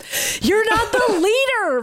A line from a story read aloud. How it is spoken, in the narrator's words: Maddie screamed